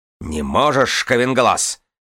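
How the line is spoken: Snapping retort. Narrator (Russian): огрызнулся Аред

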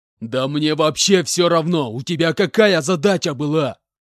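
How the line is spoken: Enraged shouting. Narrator (Russian): Побагровев, кричал Иванович с проступившими на лбу венами

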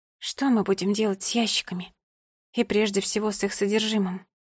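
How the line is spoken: Sighing mother. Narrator (Russian): мама вздохнула

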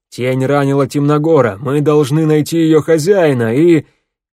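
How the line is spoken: Yelled. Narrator (Russian): Змеевик заорал

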